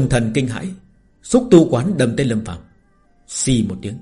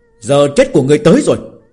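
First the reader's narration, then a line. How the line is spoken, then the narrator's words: Barked shout. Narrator (Vietnamese): Lâm Phàm quát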